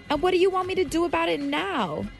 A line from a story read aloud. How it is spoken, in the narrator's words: yelled back